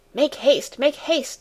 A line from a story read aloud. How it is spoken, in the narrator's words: cried in a hurried voice